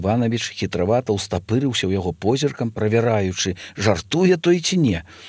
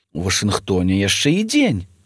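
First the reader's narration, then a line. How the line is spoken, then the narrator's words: Sarcastic smile. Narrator (Belarusian): саркастычна усміхнуўся спецслужбовец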